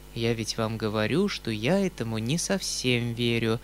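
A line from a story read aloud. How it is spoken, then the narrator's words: Calm reply. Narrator (Russian): спокойно отвечал Мизинчиков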